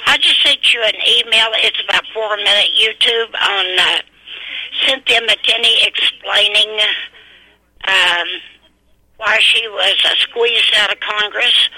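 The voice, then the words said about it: Voice giving out. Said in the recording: “I think I'm losing my voice.”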